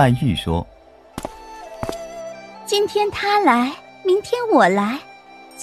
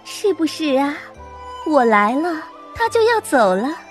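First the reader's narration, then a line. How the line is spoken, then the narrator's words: Smiling. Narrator (Chinese): 黛玉笑着对宝钗说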